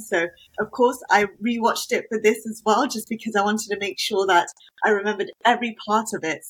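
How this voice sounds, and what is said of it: British accent. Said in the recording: “I heard a British accent.”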